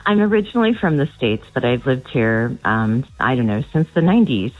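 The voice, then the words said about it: American accent. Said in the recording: “isn't it funny how your accent just never goes?”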